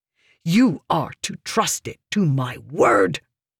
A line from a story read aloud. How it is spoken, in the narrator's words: Meridas spat